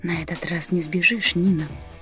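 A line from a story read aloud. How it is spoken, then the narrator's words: Man's whisper in ear. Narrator (Russian): наклонившись к ее уху, шепнул мужчина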